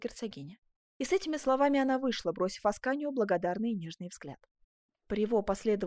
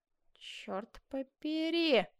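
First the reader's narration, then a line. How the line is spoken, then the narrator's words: Mutter. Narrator (Russian): пробормотал Жак Обри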